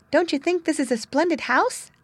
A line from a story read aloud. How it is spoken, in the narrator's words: asked Whitefoot rather timidly